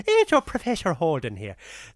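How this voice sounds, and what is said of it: Put-on Irish accent. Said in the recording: “it sounds funnier in the Irish accent.”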